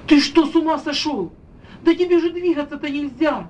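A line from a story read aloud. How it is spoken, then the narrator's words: Shouting. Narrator (Russian): закричала она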